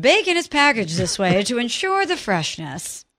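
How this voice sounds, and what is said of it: Sports newscaster voice. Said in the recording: “Give me my Sports Center voice ... you just did your Sports Center voice for bacon packaging ... newswoman mode”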